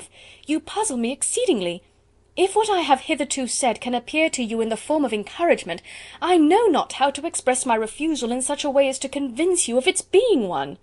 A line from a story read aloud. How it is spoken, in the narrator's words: cried Elizabeth with some warmth